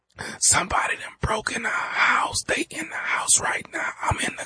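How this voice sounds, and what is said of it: Quiet frightened whisper. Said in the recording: “Man, speak up. I can't hear you. ... why the hell are you whispering?”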